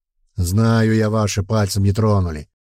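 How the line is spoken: Troll grumbling. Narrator (Russian): проворчал тролль

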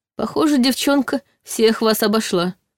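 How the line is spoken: Snorting. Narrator (Russian): хмыкнул Долгов

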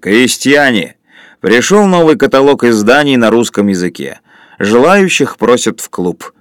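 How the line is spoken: Loud booming bass. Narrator (Russian): Лин сказал басом, перекрывшим шум на веранде

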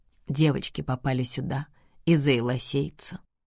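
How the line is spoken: Even, level voice. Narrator (Russian): ровным голосом поясняет Энис

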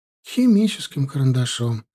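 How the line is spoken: Sad, smiling. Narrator (Russian): грустно улыбнулась Ирина Леонидовна

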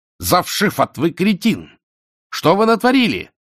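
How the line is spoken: Yelling. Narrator (Russian): орал шатен

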